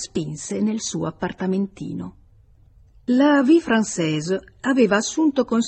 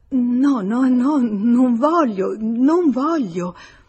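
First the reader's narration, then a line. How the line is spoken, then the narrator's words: Frightened female stammer. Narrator (Italian): sgomentata dall'idea di quel convegno a due, e balbettò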